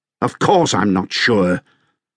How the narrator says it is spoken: snapped Sir John de Wolfe

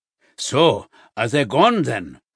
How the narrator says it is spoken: her grandfather grunt from somewhere behind the shelves

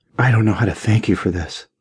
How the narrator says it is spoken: whispered

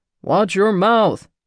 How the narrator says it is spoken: my dad barks

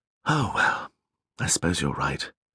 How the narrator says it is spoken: sighed Atticus

